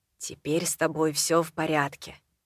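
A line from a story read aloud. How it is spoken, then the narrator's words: Hoarse voice. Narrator (Russian): хрипло сказал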